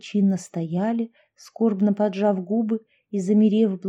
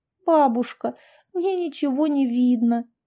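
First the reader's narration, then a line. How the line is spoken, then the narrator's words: Girl whimpering. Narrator (Russian): захныкала девочка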